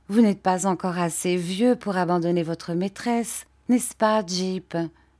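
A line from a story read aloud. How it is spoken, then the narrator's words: Plain. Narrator (French): dit Dora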